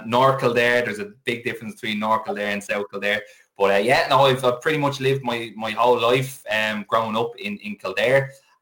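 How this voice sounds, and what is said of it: Slight Dublin Irish accent. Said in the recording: “a little bit of a Dublin accent”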